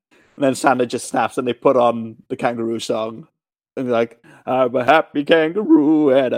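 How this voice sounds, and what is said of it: Usual voice. Nothing is said of it.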